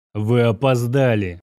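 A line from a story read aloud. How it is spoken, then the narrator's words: Grim curt remark. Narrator (Russian): мрачно бросил князь Орлов, не делая попыток обернуться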